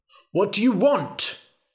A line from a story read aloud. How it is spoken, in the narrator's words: shouted the king